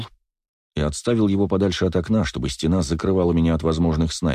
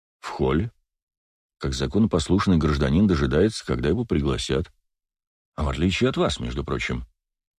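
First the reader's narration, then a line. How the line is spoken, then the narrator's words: Calm. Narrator (Russian): спокойно произнес Вельский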